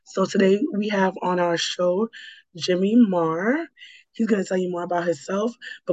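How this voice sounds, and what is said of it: Slightly raspy voice. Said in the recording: “my voice is still not back to where it needs to be, so sorry for the little raspiness.”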